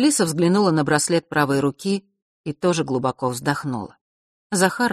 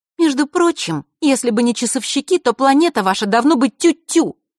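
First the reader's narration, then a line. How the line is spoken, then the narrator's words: Angry. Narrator (Russian): зло произнесла Захара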